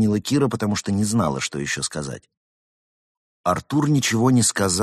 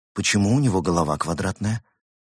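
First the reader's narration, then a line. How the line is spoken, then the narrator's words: Plain. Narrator (Russian): спросила Кира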